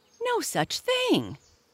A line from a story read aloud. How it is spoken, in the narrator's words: cried Buster Bumblebee